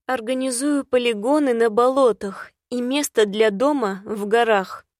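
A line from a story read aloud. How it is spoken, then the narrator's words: Gloomy sharp rebuke. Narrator (Russian): мрачно осадила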